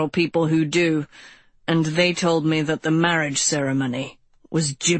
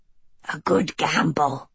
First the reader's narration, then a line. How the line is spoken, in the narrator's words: Arliss grumbled